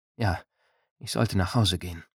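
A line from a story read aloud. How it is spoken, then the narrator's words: Low murmur. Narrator (German): murmelte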